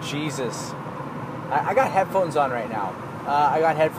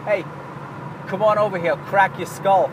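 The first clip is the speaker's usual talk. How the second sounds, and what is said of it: Put-on Boston accent. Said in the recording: “That was not me doing a Boston accent, because if you really knew who I was”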